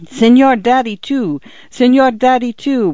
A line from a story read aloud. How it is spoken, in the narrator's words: would come Paula's protesting wail, 20 desperate squirming inches from the telephone